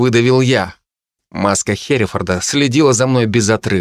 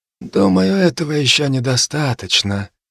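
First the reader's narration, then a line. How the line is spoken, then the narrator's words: Quiet. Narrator (Russian): тихо сказал он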